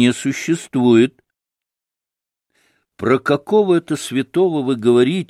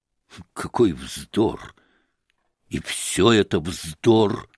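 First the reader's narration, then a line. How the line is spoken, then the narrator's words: Muttering. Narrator (Russian): бормотал он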